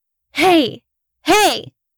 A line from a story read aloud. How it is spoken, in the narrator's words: I shouted